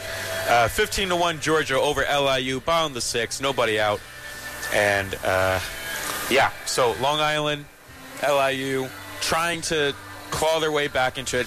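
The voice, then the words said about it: Strained, nearly lost voice. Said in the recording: “I'm almost losing my voice.”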